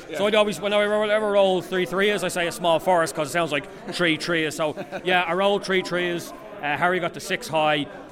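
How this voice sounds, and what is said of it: Irish Dublin accent. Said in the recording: “My Irish accent ... So we are in Dublin, we say tree, we pronounce three.”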